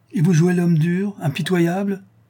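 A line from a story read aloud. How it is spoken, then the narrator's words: Exclamation. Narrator (French): s'écria le comte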